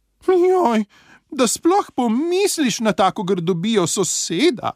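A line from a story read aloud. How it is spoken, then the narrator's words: Offended shout. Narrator (Slovenian): je užaljeno zavpila Miška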